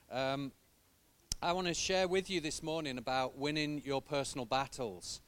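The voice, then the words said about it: Foreign accent. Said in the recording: “I'm the foreigner who with a strange accent”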